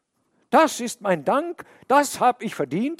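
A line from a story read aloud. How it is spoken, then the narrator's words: Calling out. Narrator (German): rief er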